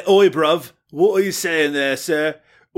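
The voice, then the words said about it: Put-on Cockney accent. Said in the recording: “Cockney accent”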